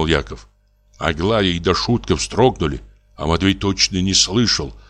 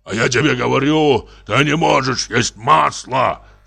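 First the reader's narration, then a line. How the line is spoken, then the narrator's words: Louder angry shout. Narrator (Russian): крикнул Яков еще громче, покраснел весь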